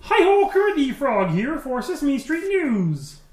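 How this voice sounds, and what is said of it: Kermit the Frog impression. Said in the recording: “kind of sounds like Kermit... I actually do an impression of Kermit... That is good.”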